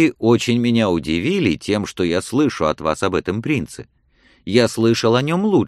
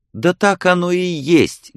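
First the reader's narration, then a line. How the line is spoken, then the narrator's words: Passionate young woman's exclamation. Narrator (Russian): горячо воскликнула девушка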